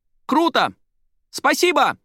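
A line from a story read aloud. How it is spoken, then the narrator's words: Young woman shouting after someone. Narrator (Russian): выкрикнула девушка вслед матери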